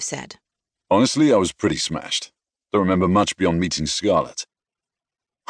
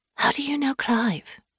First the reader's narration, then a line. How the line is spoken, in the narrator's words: I whispered